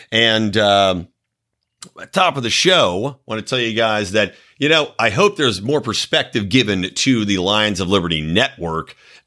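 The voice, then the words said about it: Slightly scratchy voice. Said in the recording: “my voice is a little scratchy still from talking and drinking and doing everything in that dry Reno air”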